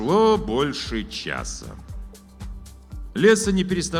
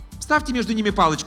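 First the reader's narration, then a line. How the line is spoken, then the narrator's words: Dismissive. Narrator (Russian): отмахнулась художница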